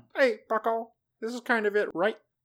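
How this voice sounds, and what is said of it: Silly voice imitating another person. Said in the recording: “in a silly voice”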